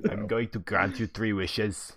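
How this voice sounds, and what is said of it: Poor impression of another person's voice. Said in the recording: “That was a terrible impression.”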